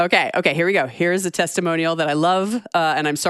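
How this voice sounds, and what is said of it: Usual voice. Nothing is said of it.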